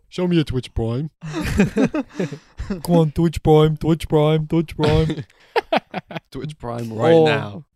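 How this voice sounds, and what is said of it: Fake British accent. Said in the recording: “a fake British accent”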